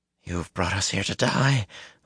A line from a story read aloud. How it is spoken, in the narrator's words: Luce Theron moaned